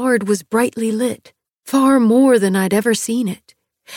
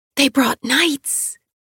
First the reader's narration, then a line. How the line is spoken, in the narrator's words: I whispered the obvious